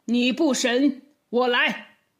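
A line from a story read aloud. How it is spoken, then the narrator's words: Angry. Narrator (Chinese): 包公就一脸怒气的说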